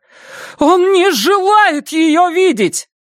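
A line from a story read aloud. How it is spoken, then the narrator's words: Flushed shouting. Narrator (Russian): Катя с покрасневшим лицом кричала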